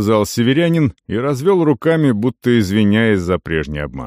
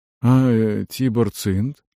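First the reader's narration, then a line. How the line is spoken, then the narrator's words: Quiet question. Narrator (Russian): тихо спросил Дарш, наемник из Десятка Шора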